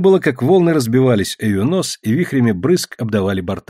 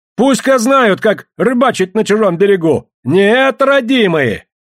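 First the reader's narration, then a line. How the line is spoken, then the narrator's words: Triumphant yelling. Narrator (Russian): С восторгом победителя орал Барабанов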